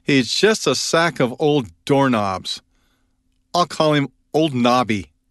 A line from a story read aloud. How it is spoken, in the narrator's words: In disgust, she exclaimed